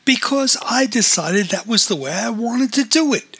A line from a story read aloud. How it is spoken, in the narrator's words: exclaimed O'Rourke